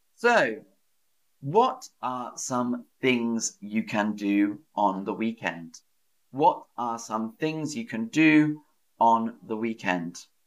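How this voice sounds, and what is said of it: British English accent. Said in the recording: “I speak British English”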